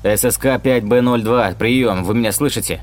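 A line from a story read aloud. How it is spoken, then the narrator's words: Shouting into phone. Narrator (Russian): кричал врач в трубку телефона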